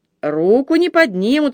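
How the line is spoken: Laughing loudly. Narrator (Russian): расхохотался Мартин

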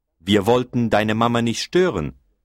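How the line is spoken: Plain. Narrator (German): sagte Hertha

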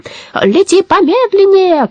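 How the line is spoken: Shout. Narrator (Russian): крикнул Абрахас

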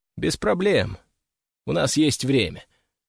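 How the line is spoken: Calm reply. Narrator (Russian): спокойно ответил я

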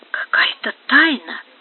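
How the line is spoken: Whispering. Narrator (Russian): прошептала Дукеза

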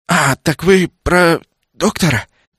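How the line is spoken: Young man whispering. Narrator (Russian): Юнец перешел на шепот

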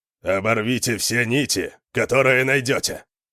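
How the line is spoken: Growled. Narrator (Russian): прорычал Йорин

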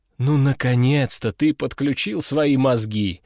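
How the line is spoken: Chuckling. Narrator (Russian): хохотнул Овод

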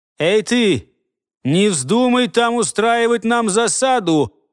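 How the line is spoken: Approaching shout. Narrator (Russian): прокричал ему уже приближавшийся голос Амчака

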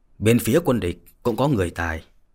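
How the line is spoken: Grave, sorrowful. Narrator (Vietnamese): Yến Trường Không thoáng lên vẻ thê lương, nghiêm giọng mà nói

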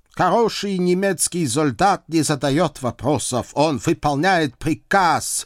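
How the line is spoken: Stern reminder. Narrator (Russian): строго напомнил Кнут Гамсунович

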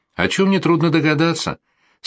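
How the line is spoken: Calm countess. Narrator (Russian): спокойно ответила ему графиня

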